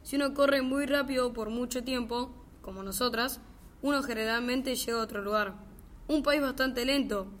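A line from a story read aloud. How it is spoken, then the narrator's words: Plain. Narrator (Spanish): dijo la reina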